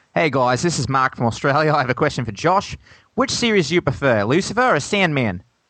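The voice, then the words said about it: Put-on Australian accent, sounds New Zealand. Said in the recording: “if ... reads this in Australian accent ... that sounded a bit more New Zealand than Australian”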